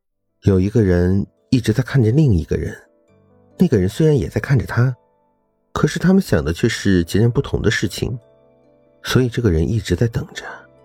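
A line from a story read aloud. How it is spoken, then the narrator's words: Quiet, going along. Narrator (Chinese): 罗少默默地顺着他的话说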